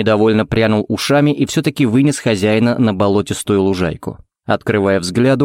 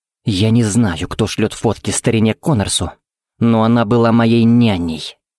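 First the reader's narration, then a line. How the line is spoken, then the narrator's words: Through gritted teeth. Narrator (Russian): процедил Тикс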